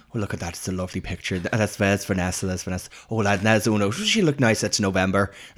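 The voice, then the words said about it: Put-on Irish accent, imitating older woman. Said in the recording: “I'm doing Una's mum ... the most Irish woman ever to have lived ... I'm not going to do the Irish accent ... I'm not going to do the accent. ... I will.”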